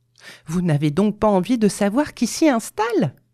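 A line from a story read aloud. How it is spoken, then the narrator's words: Impatient wife exclaiming. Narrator (French): s'écria sa femme impatientée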